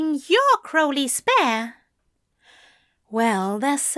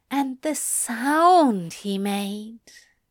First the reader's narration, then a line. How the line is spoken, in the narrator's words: Aziraphale gasped